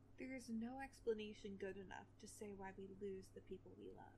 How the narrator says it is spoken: he murmured

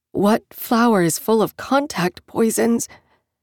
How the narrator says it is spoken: she asked, her voice caught in her throat, around the edges of the receding pain and the adrenaline shock

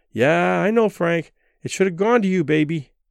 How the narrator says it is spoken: Barbara, who must have heard this lament a thousand times, said soothingly

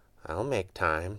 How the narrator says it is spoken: she said quietly

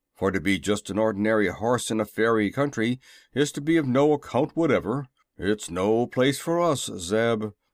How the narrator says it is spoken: grumbled Jim

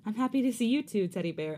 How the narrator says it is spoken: I giggle

